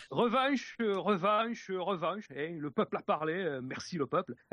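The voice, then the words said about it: Put-on Dunkirk regional accent. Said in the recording (French): “je me lance avec mon accent de Dunkerque.”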